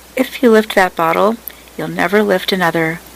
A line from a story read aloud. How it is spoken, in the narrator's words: Brown said calmly